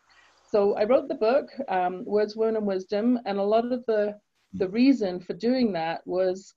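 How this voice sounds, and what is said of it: English accent. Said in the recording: “I grew up in England. You can tell from my accent, I wasn't born in Canada.”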